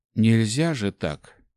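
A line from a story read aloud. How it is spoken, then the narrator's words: Sad. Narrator (Russian): грустно произнес Ари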